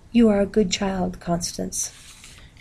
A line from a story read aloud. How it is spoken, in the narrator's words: she said in that soft, distant voice